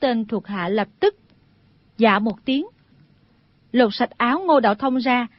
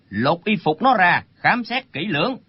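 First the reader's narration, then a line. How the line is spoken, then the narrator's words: Frowning old man's shout. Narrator (Vietnamese): Lão chau mày quát lên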